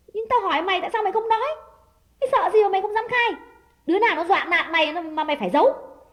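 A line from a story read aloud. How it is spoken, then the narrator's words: Louder shout. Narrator (Vietnamese): Đào quát lớn hơn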